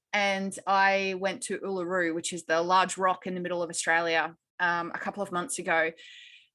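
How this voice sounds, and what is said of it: Australian accent. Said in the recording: “I'm Australian, obviously, you can tell by my accent.”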